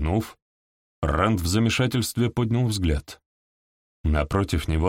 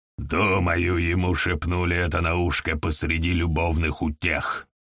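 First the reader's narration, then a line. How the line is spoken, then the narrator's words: Grumbling. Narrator (Russian): проворчал Нилкхан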